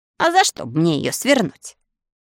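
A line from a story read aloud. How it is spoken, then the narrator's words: Snapped. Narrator (Russian): огрызнулся Билан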